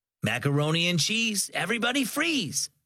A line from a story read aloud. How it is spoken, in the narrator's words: Sam, the camp counselor, called out over the rowdy summer campers